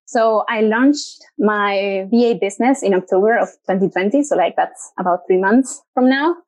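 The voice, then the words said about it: Slight Argentine accent. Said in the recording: “I'm from Argentina. So if you hear a little bit of an accent”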